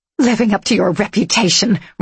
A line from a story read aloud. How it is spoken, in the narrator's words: Ryan snarled